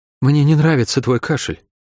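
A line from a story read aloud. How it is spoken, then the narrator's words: Sighing woman. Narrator (Russian): вздохнула Шерон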